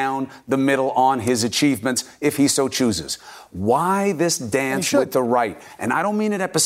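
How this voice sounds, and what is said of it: Usual voice. Nothing is said of it.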